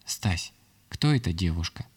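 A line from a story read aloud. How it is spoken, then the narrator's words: Quiet question, wife. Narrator (Russian): тихо спросила меня жена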